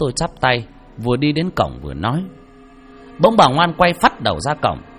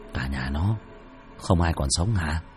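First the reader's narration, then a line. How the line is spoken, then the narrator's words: Father's soft whisper. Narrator (Vietnamese): Bố khẽ thì thầm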